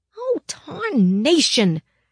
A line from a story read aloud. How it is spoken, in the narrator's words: she hollered in Bridget's ear